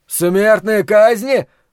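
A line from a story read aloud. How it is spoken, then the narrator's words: Horrified wail. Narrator (Russian): в ужасе завопил Ллойд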